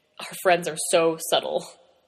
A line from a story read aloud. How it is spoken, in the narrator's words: Frank snorted